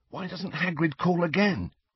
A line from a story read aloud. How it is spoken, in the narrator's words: he whispered